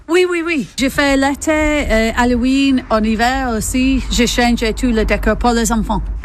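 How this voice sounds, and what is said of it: English accent speaking French. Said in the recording (French): “D'où vous vient votre accent? ... Moi, j'ai venu d'Angleterre”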